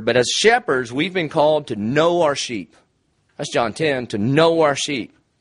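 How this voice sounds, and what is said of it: Rural American country accent. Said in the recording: “As you can tell by my accent, I'm country.”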